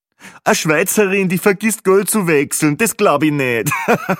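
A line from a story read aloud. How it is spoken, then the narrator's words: Joke with own loud laughter. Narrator (German): war nun schon der zweite lustige Kommentar, und natürlich lachte er selbst am lautesten über sein fades Witzchen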